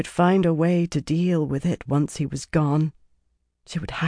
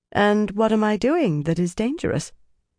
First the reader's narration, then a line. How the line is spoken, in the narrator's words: She tried to make her voice light, but it was difficult